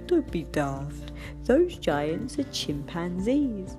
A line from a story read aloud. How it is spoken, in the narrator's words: Day Monkey laughed and said